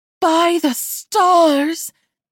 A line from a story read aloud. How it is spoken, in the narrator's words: Zenith cried